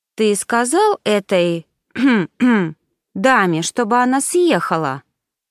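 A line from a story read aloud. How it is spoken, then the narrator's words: Drawling. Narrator (Russian): Протянул Пауло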